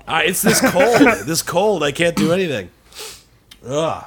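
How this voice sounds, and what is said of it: Usual voice. Nothing is said of it.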